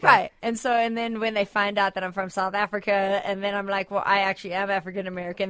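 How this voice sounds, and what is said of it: Sounds strongly American. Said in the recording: “you're sounding super American right now, dude ... you're sounding super American, more so than the last time”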